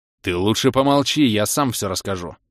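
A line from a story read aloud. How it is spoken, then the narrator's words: Growled. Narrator (Russian): Рыкнул я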